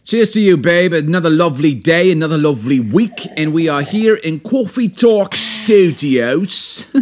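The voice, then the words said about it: Put-on accent. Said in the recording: “Doing my accent pretty good. Reason I'm doing my accent so beautifully”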